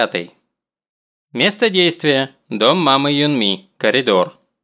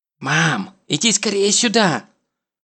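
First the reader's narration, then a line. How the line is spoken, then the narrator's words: Whispered call. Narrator (Russian): шепотом зовет маму Сунок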